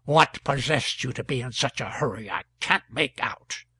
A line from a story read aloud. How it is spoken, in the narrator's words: Cox said in a vexed tone